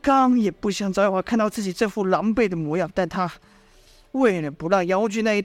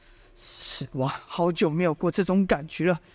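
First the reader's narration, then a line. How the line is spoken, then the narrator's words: Murmuring. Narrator (Chinese): 他喃喃的说道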